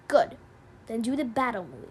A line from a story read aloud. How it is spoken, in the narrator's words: Red Claw growled